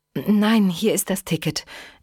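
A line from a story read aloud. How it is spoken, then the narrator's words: Hasty reply in English. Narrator (German): erwiderte Eva hastig auf Englisch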